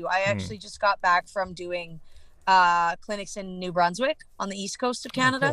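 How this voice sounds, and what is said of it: Canadian English accent. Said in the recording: “It's just the Canadian accent”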